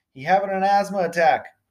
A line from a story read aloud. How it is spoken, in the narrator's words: Jory called out